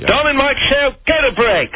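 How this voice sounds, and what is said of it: Put-on British accent. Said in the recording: “do your British accent ... in your British accent”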